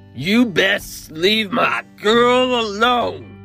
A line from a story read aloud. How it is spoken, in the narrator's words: roared, words slurred